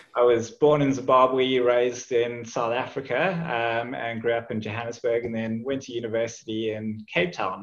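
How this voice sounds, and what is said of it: Non-Australian, southern African accent. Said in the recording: “as you can probably tell from my accent, I didn't grow up in Australia”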